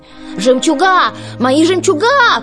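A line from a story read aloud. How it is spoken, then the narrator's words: Shout. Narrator (Russian): крикнула Анастасия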